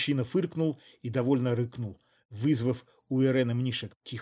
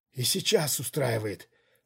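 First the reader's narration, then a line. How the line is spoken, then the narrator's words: Hoarse breathless gasp. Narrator (Russian): хрипло выдохнула Рьяна Мнишек и коротко вскрикнула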